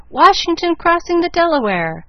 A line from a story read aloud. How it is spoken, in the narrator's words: with one voice the audience cried